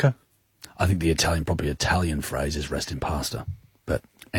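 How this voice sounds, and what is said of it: Usual voice. Nothing is said of it.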